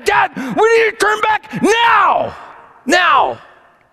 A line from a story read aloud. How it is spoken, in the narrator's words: yelled